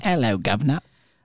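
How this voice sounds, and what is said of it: Put-on British accent. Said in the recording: “now we have to talk in just a British accent.”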